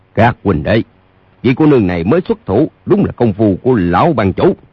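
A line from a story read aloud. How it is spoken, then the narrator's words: Loud raised voice. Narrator (Vietnamese): Lỗ Hữu Cước cao giọng nói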